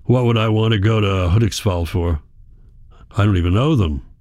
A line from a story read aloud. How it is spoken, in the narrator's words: grunts